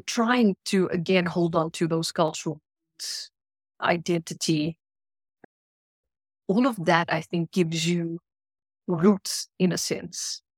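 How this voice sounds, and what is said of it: South African Indian accent. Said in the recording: “I'm South African ... because of my accent ... I'm either labeled Indian ... I'm from Africa, yeah, my accent”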